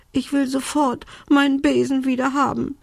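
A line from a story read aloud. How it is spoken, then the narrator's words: Sobbing. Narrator (German): schluchzte Belinda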